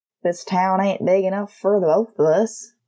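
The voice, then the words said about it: Exaggerated Hollywood Texas drawl. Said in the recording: “switching from his honey-sweet Oklahoma accent to a Hollywood, Texas drawl.”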